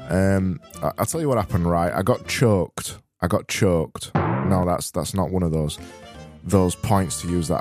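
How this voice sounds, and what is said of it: Weak, strained voice. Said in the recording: “my voice is not sounding too strong today. I don't, unfortunately, have thick diction today.”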